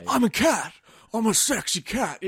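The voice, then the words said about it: Nicolas Cage impression. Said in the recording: “that impersonation of that other actor ... Nicolas Cage”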